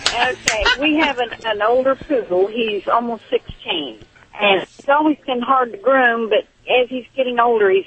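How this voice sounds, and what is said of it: Slight Southern US accent. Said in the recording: “I'm detecting a little southern accent. ... I'm from Texas.”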